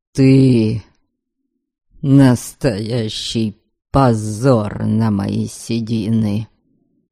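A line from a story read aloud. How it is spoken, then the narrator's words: Stern menacing father. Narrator (Russian): Грозно заявил отец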